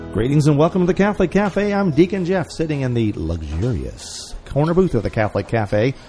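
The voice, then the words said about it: Announcer-style radio voice. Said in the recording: “You got your radio voice, I see.”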